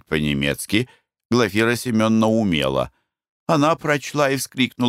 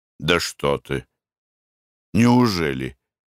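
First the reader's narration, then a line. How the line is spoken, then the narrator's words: Astonished mutter. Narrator (Russian): пробормотал Николай Иванович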